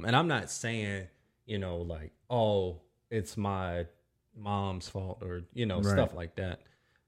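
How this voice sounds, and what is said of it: Southern US accent. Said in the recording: “me being from the South, that's why my accent sounds like this... now it's in this weird hybrid thing, because I live in Minnesota... I'm from North Carolina... my accent is always changing”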